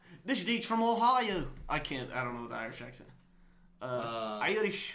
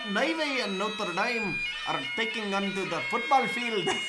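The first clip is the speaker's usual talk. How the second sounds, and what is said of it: Put-on Irish accent. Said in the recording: “you are about to be speaking in an Irish accent.”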